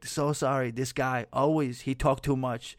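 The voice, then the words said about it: Quoted line in unidentified accent. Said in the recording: “Don't ask me what accent that was, because I don't know, but she spoke in an accent.”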